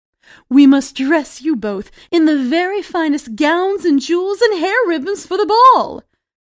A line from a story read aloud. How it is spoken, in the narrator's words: Cinderella's stepmother declared excitedly